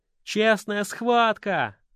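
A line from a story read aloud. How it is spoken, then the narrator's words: Approving crowd noise. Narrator (Russian): одобрительно зашумели в толпе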